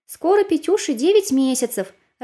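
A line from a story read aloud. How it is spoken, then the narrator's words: Joyful, over the phone. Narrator (Russian): радостно сказала моя мама по телефону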